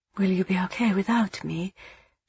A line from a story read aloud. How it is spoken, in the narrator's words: She asked softly